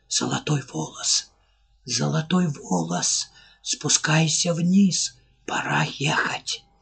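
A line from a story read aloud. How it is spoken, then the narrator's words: Barely audible whisper. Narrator (Russian): И еще она услышала еле уловимый шепот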